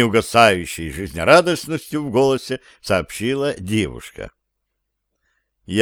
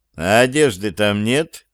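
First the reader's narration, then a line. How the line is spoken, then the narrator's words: Words forced out. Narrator (Russian): Борясь с притягательностью созерцания, выдавил я из себя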